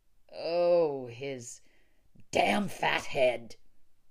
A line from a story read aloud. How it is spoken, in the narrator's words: he repeated fervently